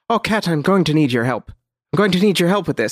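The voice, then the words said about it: Character voice for a fictional woman. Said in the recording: “I'm going to try to do a voice for both of these characters”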